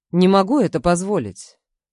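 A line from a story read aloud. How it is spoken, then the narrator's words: Calm male voice. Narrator (Russian): спокойно проговаривает мужчина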